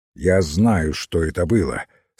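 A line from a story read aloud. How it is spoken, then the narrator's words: Plain. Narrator (Russian): сказал сыщик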